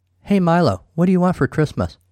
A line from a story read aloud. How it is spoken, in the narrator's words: chuckled darkly